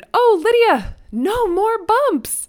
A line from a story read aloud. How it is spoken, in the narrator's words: I shouted